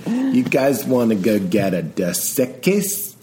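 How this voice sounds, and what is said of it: Pauly Shore impression. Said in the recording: “doing a Pauly Shore impression.”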